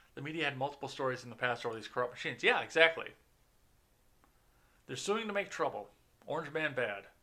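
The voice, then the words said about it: Tucker Carlson impression. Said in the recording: “My Tucker impression.”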